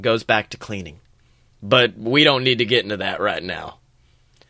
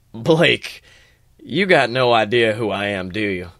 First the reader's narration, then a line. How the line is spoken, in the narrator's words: Rebus laughs